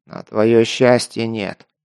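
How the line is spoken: Grumbling. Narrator (Russian): проворчал майор

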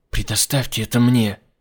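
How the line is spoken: Furious whispered demand. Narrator (Russian): Яростным шепотом потребовала

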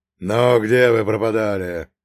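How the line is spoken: Growling, masking emotion. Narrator (Russian): прорычал он, пытаясь скрыть эмоции под маской злобы

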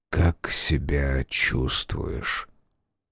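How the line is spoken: Whispered. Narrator (Russian): он шепнул

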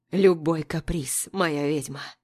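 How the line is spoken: Hoarse whisper. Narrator (Russian): Хрипло шепчет

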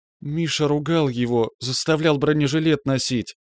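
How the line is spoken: Trembling-voiced reply. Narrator (Russian): подрагивавшим голосом ответила Лена

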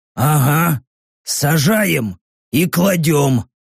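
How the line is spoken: Hoarse. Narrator (Russian): Прохрипел Рек

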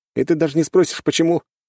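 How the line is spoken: Snorting. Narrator (Russian): хмыкнул я

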